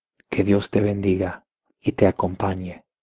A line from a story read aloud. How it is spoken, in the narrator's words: she whispered